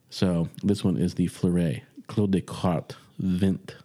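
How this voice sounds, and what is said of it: Clumsy attempted French pronunciation. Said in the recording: “that's the best French I can give you right now ... my accent needs a little work”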